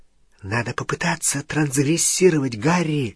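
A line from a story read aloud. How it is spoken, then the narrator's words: Whispered. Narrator (Russian): шепнула Гермиона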